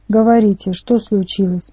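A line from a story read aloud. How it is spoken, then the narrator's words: Grumbled. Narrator (Russian): буркнул я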